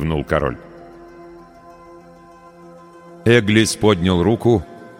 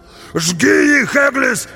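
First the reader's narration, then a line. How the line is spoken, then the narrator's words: Barbarian shouting. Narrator (Russian): закричал варвар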